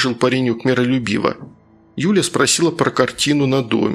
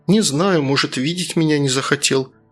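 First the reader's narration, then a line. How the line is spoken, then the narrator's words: Sad reply. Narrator (Russian): грустно ответила Юля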